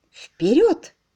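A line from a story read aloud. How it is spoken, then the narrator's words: Exclamation. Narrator (Russian): воскликнула Энн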